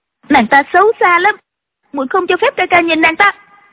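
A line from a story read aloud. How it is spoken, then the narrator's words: Angry. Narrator (Vietnamese): Ân Ly tức giận nói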